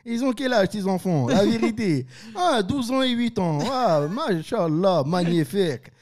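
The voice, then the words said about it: Impression of Kyle's father, South Park. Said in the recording (French): “Ça, c'est le père de Kyle dans... C'est le père de Kyle dans South Park.”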